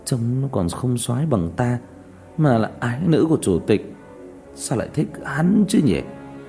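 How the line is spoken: Scoffing mutter. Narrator (Vietnamese): một tiểu tử hừ một tiếng lẩm bẩm

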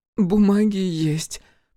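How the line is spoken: Sobbing. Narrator (Russian): всхлипнула Антонина

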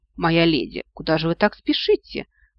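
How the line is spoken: Insinuating question. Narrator (Russian): вкрадчиво поинтересовался он

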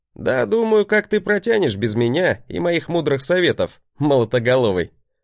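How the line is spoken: Chuckling, boastful. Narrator (Russian): Хохотнул я, показывая свою обычную браваду

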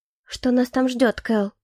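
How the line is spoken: Quiet question. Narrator (Russian): Спросила тихо

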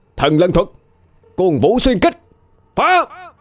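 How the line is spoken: Roaring. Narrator (Vietnamese): Hào gầm lên

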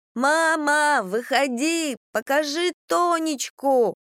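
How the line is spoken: Yelling. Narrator (Russian): он вопил

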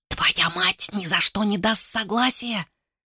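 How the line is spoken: Whisper. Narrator (Russian): шепнула Лиума

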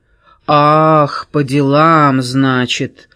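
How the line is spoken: Drawling. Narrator (Russian): протянул Кис

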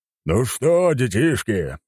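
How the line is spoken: Admiral's booming cheerful voice. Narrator (Russian): прогремел веселый голос адмирала Нахимова со второго этажа

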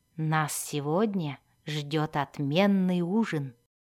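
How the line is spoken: Whisper. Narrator (Russian): прошептал он Зирту

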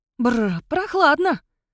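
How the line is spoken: Woman exclaiming. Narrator (Russian): воскликнула она

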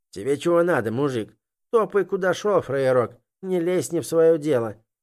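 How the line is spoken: Rude, coarse. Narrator (Russian): грубо произнес тот, что держал в руках женскую сумочку

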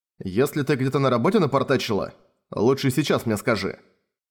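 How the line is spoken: Stern warning. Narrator (Russian): строго предупредил её Додзи

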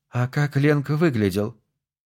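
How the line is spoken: Sighing question. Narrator (Russian): Нора вздохнула и спросила

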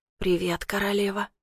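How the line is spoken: Hoarse rasp. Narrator (Russian): прохрипел он

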